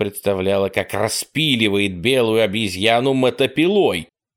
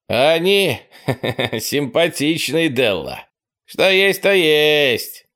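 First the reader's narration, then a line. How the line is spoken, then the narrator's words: Giggling. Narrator (Russian): Чаки хихикнул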